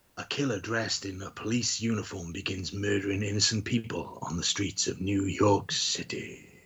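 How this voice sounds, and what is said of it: Movie narrator voice. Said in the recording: “my narrating voice ... Went a bit Matt Berry with the Manchu ... You like the way I said city?”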